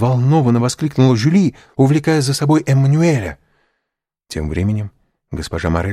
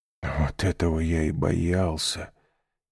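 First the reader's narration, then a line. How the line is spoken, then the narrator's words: Whisper. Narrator (Russian): прошептал Морель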